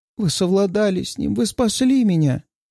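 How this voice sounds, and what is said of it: Trembling, tearful crying voice. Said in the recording (Russian): “Глухой всхлип, и вдруг она разрывается на плач. ... Ее голос дрожит.”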